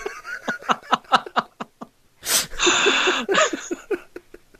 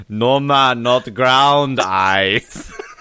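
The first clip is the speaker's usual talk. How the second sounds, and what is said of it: Put-on Jamaican accent. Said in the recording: “Jamaican accent”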